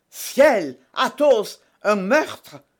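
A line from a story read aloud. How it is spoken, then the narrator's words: Exclaiming. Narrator (French): s'écria d'Artagnan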